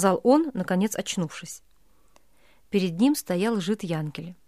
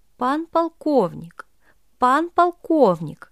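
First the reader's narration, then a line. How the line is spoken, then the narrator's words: Hurried, broken urgent voice. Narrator (Russian): говорил жид поспешным и прерывистым голосом, как будто бы хотел объявить дело не совсем пустое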